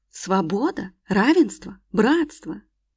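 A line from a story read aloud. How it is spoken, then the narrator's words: Urge to exclaim. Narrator (Russian): так и подмывало воскликнуть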